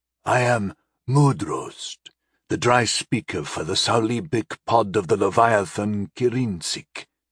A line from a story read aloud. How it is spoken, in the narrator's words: he said in a deep but hoarse voice